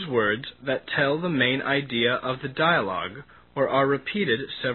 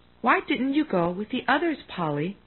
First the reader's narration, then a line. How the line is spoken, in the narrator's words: she asked kindly